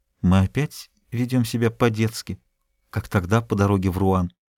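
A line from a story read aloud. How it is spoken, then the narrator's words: Embarrassed whisper. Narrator (Russian): прошептала, слегка сконфуженная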